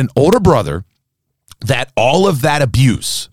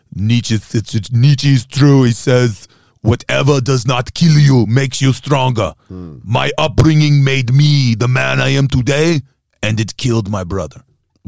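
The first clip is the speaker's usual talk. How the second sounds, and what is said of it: Deliberately bad celebrity voice impression. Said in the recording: “I'll do the honor voice ... That was a pretty bad Arnold ... I meant it to be bad”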